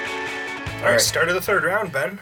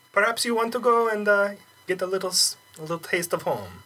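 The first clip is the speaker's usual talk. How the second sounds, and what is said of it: Ambiguous put-on accent. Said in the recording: “my somewhat ambiguous accent”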